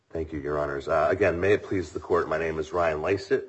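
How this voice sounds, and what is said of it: Hoarse voice. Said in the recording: “I'm a little hoarse today.”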